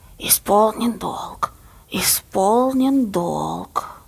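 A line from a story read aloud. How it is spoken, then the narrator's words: Old woman's prompting hiss offstage. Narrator (Russian): Баба Лиза, решив очевидно, что Сенька забыл текст, шипела из-за кулис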